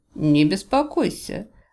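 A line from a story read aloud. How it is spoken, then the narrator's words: Nervous laugh. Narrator (Russian): Гори несколько нервно рассмеялся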